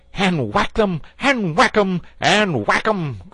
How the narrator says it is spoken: cried the toad in ecstasy

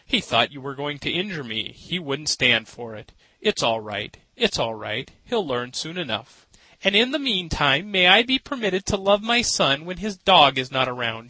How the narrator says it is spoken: she laughed, though she was pale and weak from the fright

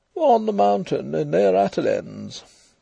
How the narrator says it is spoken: Devereux answered gloomily

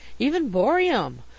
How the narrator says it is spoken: we exclaimed, delighted

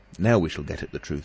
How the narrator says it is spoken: said Dr

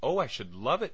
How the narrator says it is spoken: cried Agatha

